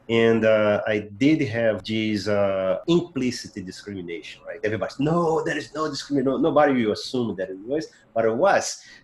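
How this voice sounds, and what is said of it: Portuguese-speaking immigrant accent. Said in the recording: “I am an immigrant. I want to keep my accent ... I want to keep teaching Portuguese to my kids”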